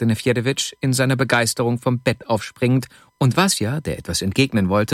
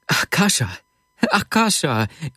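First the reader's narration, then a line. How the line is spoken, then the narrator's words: Called out. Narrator (German): rief Wasja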